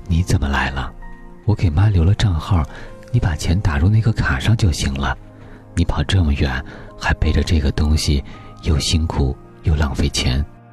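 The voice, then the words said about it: Quiet, hushed voice. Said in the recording (Chinese): “小声问他”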